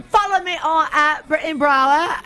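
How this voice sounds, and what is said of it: Poor put-on British accent. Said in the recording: “British accent ... Say it in your accent ... my British accent because it sucks”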